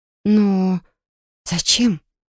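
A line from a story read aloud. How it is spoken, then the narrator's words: Hoarse and frightened. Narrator (Russian): Мой голос звучал хрипло и испуганно, я сама его не узнавала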